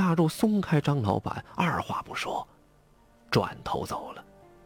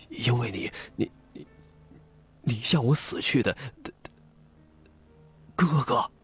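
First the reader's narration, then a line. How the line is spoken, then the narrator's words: Terrified, near tears. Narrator (Chinese): 张老板吓坏了，都快哭出来了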